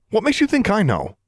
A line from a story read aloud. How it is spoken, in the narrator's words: Alexandra snapped, a little too sharply